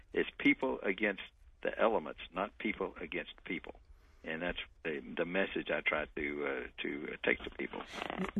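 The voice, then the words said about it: Texan American accent. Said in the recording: “As you can tell from my accent, I'm from Texas.”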